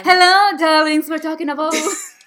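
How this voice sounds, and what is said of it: Put-on British accent, character voice. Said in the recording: “we love British accent too, as you could tell... Lucifer Morningstar will talk from now on”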